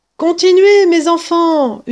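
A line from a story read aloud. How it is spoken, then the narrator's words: Yelled. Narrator (French): hurlait Maître Renard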